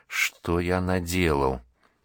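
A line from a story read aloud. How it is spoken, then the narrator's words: Soundless mouthed whisper. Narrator (Russian): одними губами прошептал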